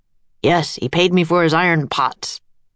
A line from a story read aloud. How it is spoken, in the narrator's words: the blacksmith said gruffly